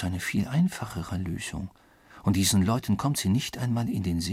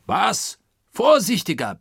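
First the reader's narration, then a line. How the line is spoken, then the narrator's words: Furious roar. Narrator (German): brüllte nun Oberst Proctor, den dieses zufällig aufgefangene Wort in Harnisch brachte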